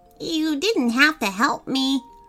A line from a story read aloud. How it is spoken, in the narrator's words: Alicia said in her strange, croaky voice